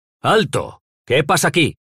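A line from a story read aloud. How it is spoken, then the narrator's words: Commanding shout through crowd. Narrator (Spanish): gritó una voz abriéndose paso entre la muchedumbre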